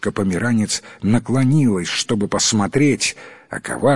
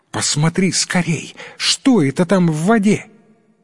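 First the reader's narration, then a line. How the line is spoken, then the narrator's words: Exclamation. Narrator (Russian): служанка сделала вид, что что-то увидела в роднике, и воскликнула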